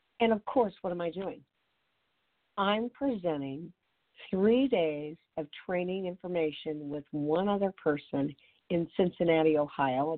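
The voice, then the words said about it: Hoarse, weak voice from laryngitis. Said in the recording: “the worst cold ever, moving into laryngitis ... I can't talk. You can barely hear me.”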